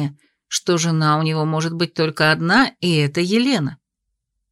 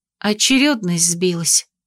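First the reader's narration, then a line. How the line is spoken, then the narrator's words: Muffled mumble. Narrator (Russian): пробормотала я ему в шею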